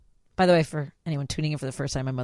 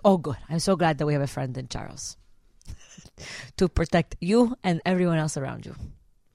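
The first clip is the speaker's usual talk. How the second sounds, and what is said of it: Put-on Mexican accent. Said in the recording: “my mother's from Mexico. It's just, I'm not doing an impression of Scarface. It just sounds very wrong.”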